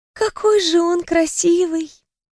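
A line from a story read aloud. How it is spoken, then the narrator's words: Admiring sigh. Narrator (Russian): вздохнула Даяна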